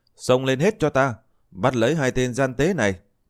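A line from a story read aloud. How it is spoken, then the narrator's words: Loud shout. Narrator (Vietnamese): Bạch cốt ma đầu hét lớn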